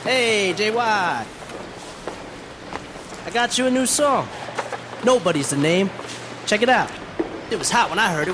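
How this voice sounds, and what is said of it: Badly dubbed dubious Brooklyn accent. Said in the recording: “very obviously dubbed over ... And badly ... With a slightly dubious, like, Brooklynite accent”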